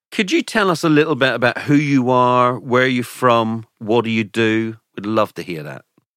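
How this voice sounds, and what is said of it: Irish accent. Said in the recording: “my own Irish accent gets a little bit stronger”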